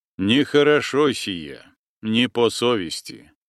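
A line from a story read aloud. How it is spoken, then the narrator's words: Gloomy priest objecting. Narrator (Russian): мрачно возразил священник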